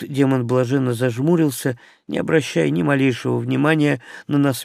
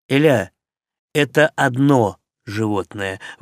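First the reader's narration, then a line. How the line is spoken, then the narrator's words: Interrupting. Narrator (Russian): влез я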